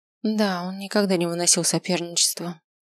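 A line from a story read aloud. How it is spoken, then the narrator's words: Sighing. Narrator (Russian): вздохнула миссис Матильда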